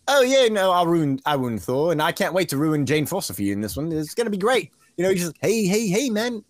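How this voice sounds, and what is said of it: Bad Taika Waititi impression. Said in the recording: “my Taika impression was just so bad at first.”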